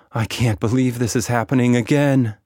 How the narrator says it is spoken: she moaned

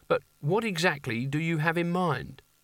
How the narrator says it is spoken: said Canina meekly

